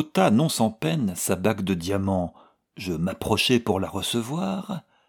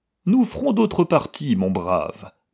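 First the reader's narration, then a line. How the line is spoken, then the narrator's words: Superior tone. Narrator (French): dit-il à l'Aragonais d'un ton de supériorité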